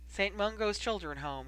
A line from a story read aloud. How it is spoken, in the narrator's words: replied wearily, sounding as though that answer cost him something